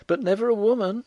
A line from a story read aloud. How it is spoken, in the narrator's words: cried the girl